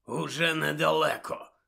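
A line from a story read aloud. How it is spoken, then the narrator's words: Hoarse wheeze. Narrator (Ukrainian): прохрипів Муді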